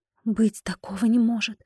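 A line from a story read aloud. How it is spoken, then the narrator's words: Whispered. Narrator (Russian): прошептала я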